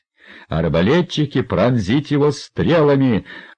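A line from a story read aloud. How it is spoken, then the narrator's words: Furious yelling. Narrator (Russian): орал герцог, глаза которого лезли из орбит от черного гнева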